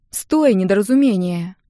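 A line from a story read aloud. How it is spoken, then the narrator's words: Sister sighing. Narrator (Russian): Вздохнула сестра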